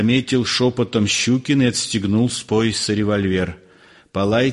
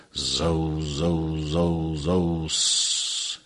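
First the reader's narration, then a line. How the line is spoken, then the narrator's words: Hissing. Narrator (Russian): шипела оранжерея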